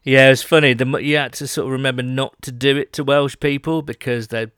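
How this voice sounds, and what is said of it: Usual voice. Nothing is said of it.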